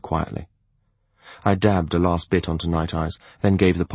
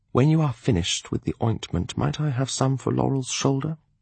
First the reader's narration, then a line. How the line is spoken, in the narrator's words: Wariness haunted his voice as he cautiously asked me